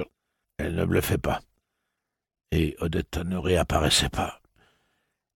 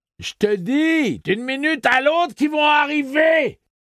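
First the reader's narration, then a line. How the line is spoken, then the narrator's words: Shouted. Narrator (French): hurla Dette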